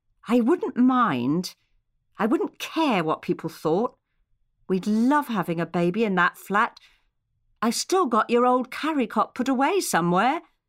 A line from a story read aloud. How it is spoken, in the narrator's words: said, hesitantly and quietly, just for the two of them to hear